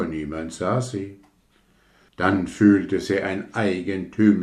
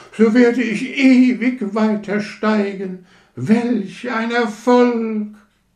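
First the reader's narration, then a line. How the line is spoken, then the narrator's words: Shouting. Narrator (German): schrie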